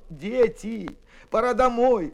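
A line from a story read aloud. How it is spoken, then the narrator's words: Adults pleading. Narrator (Russian): взмолились взрослые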